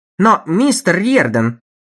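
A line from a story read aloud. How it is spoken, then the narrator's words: Desperately cheerful exclamation. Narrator (Russian): воскликнул Моуч с отчаянной бодростью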